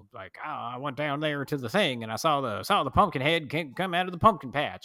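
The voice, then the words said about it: Exaggerated Southern accent. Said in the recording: “talks in a really exaggerated Southern accent... not even sure how to do it... You sound like a local.”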